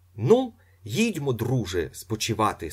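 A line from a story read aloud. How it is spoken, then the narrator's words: Plain. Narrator (Ukrainian): сказав Гаврилін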